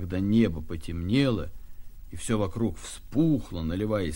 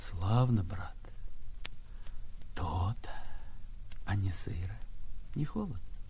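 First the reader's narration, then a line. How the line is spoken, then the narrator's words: Sighing question. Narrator (Russian): человек спрашивал, глубоко вздохнув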